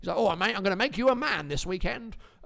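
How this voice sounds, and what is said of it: Imitates another person's voice. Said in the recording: “my Lenny the Geezer impression”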